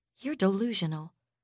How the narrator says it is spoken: Teela Kanan said flatly

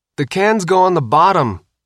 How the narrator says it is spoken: Sophia shouted

